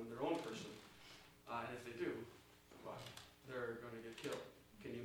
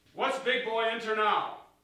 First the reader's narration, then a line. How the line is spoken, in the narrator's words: He asked sternly